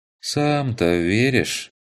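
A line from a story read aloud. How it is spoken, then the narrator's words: Sighing. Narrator (Russian): Вздохнул разбойник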